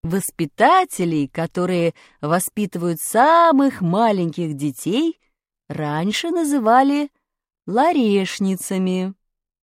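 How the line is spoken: Plain. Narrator (Russian): сказала Наталья Дмитриевна

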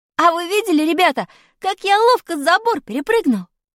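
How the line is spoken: Cheerful exclamation. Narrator (Russian): Весело воскликнул я

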